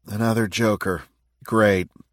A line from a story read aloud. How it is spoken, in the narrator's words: Matt muttered